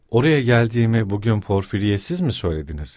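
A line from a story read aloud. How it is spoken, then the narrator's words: Plain. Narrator (Turkish): dedi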